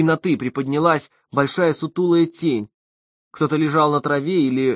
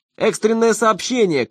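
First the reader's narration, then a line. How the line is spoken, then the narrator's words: Distant shout. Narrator (Russian): кричал тот с веранды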